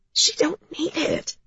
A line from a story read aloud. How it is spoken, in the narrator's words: Jamie whispered, her voice thrashed from the tubes